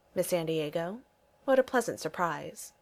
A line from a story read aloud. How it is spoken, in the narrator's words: he says calmly